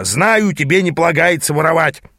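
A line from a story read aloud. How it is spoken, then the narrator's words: Growled. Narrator (Russian): прорычал мой наставник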